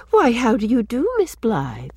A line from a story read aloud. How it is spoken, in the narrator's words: said sweetly